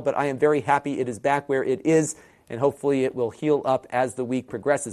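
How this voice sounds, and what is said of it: Voice not fully recovered, strained. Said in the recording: “My voice is still not 100%, as you can probably tell”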